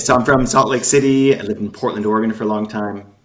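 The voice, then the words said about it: American accent. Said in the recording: “you can tell from my accent, from the States.”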